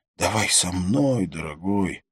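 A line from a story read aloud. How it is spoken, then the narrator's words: Hoarse, close to ear. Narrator (Russian): хрипела она мне в ухо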